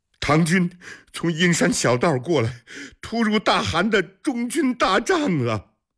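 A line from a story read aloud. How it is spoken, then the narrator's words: Near tears, choked answer. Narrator (Chinese): 阿史那中几乎是带着哭腔的回答说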